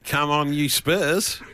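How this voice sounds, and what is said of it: Vague put-on Australian accent. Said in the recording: “I can do a vague Australian one, I suppose, mate. ... That Australian accent.”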